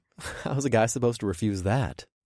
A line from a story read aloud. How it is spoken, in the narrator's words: I chuckled